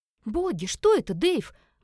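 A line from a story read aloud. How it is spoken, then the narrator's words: Exclaimed. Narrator (Russian): воскликнула Элис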